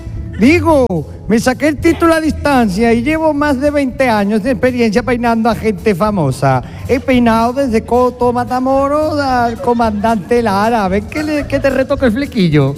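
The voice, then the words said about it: Attempted Galician accent, poorly done. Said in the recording (Spanish): “tenía que hacer acento gallego y se ha parecido a Marianico el Corto”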